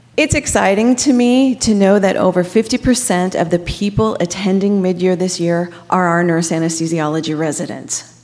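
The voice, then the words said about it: Slightly raspy voice. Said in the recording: “my voice sounds a little raspy”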